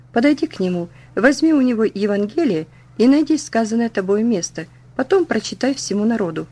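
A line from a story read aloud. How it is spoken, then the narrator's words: Whispered. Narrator (Russian): мне как будто кто шепнул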